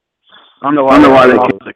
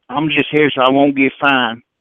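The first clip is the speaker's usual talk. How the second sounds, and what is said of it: Put-on country Texas accent. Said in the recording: “the country accent ... I didn't know Marshawn Lynch was from Texas ... so you could nail it”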